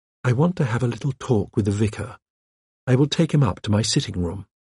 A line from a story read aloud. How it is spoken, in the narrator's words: Anne said quietly